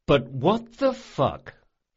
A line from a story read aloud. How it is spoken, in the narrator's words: he said slowly